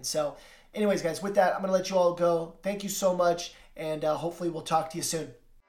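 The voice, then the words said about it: Tired, worn-out voice. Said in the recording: “you can even hear my voice is kind of changing because I'm just so exhausted”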